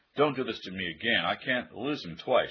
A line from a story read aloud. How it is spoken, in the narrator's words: she cried